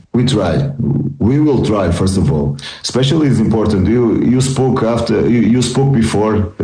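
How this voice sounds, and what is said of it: Non-native English accent. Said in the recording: “sometimes my English is in working, okay? It's really under construction ... I will try to work in my English and also in my accent”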